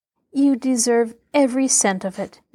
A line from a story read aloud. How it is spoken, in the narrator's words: Nancy said kindly